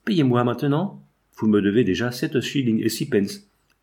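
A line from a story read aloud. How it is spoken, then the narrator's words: Impatient, pleading tone. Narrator (French): n'y tenant plus, il me demanda d'un ton suppliant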